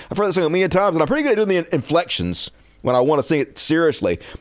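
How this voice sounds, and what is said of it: Southern American accent. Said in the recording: “my southern accent makes it hard to do the Eminem accent”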